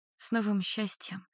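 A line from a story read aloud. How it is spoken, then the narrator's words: Quiet reply. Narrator (Russian): отвечаю тихо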